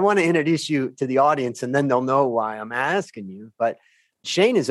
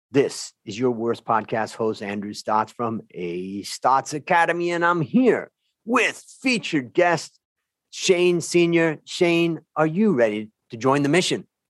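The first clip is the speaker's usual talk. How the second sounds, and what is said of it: Announcer-style radio voice. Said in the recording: “my radio voice? ... Perfect. Nailed it.”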